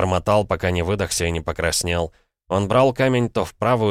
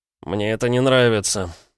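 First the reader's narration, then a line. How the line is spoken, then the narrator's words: Glum father. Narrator (Russian): наконец уныло сообщил он сыну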